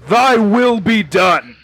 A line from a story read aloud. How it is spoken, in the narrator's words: just shouts